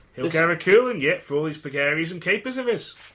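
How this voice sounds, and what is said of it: Put-on Manx accent. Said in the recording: “would you like to try your Manx accent for us? ... That was brilliant.”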